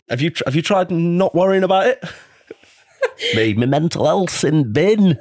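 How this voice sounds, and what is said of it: Exaggerated regional accent imitating someone. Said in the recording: “That's how she talks as well... this accent that ... does for me... whose voice is that? I've not grown up in pits.”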